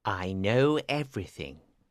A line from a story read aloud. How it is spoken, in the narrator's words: he told the king quietly